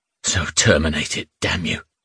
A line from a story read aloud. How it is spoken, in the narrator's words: he muttered, barely audibly